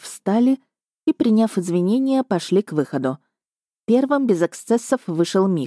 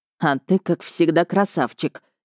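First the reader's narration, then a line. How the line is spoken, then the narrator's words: Nearly hissed. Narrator (Russian): едва не прошипел Рихард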